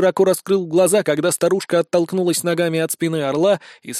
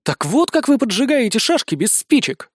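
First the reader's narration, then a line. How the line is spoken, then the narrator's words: Exclamation. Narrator (Russian): воскликнул Никита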